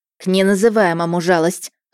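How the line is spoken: Growl imitating grandmother. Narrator (Russian): рыкнула я, подражая бабушке

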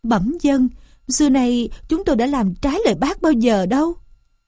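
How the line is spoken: Trembling. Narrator (Vietnamese): Châu chấu ma run rẩy

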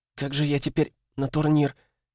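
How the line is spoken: Whimpering. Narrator (Russian): Проскулила она

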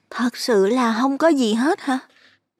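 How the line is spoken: Asking again, seeking certainty. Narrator (Vietnamese): Xuân lại hỏi thêm cho chắc

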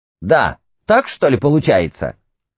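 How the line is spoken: Shouting. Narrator (Russian): Чесвик вскакивал и кричал ей

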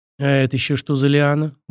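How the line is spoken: Grumbling. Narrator (Russian): буркнул Лаверн

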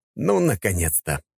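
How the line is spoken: Grumbled. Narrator (Russian): пробурчал я

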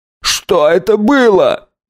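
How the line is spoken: Shrill squeal. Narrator (Russian): взвизгнул тот, которого хриплая девушка назвала Арнольдом

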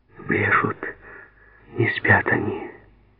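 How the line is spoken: Broken whisper. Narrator (Russian): сказала она прерывистым шепотом

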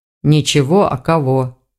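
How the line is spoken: Grumbling mutter. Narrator (Russian): проворчал старший

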